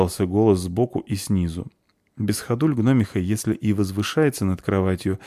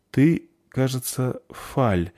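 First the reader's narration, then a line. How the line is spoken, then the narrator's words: Uncertain. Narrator (Russian): неуверенно сказала Заверушка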